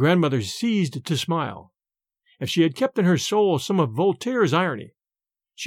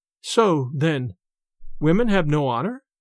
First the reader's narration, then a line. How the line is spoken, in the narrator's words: The young girl, turning very pale, faltered out